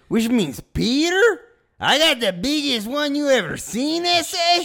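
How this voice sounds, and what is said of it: Bad put-on Spanish accent. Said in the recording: “I'm leaning into a bad Spanish accent”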